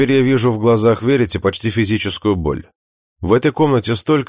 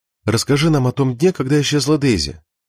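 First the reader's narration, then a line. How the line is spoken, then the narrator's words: Soft. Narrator (Russian): мягко начинает она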